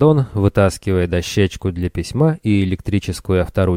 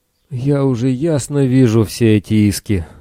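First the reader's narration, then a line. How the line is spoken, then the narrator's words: Groaning. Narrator (Russian): застонал капитан Армус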